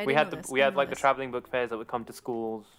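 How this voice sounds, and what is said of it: English accent. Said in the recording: “Did they have Scholastic Book Fairs in England? ... The accent kind of does that already.”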